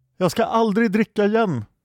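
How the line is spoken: Shouted. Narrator (Swedish): skrek Pelk

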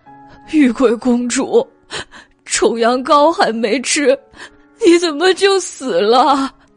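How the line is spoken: Weak voice. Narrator (Chinese): 舍利 虚弱的道

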